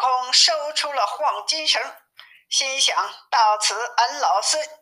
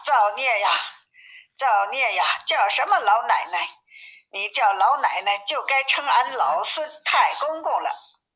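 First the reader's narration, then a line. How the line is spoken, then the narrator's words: Laughing. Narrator (Chinese): 悟空笑道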